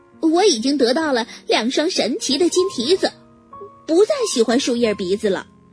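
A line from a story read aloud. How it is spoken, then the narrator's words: Pony snorting, laughing reply. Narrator (Chinese): 小马哼了一声，笑着回答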